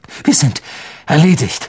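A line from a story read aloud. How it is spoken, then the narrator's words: Groaning in despair. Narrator (German): stöhnte er, als das Dach einbrach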